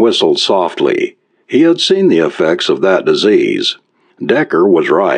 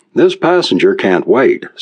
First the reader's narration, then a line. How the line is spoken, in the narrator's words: said Decker